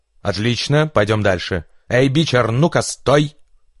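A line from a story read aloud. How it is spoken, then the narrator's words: Sudden shout. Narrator (Russian): Неожиданно крикнула баба Марша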